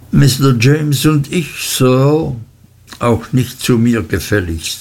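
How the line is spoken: Plain. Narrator (German): sagte ich

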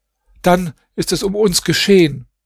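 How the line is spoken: Called out. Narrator (German): Nuam rief

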